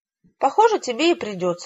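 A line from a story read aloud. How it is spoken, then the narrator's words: Joyful exclamation. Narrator (Russian): радостно воскликнул глашатай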